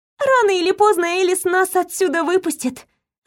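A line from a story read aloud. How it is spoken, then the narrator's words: Sighing. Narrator (Russian): вздохнула я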